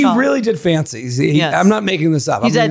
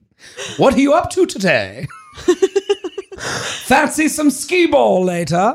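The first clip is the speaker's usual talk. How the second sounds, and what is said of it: Put-on proper British accent. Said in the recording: “he's British, so I have to do accent, right? ... Let's see how your British accent is ... Very proper English.”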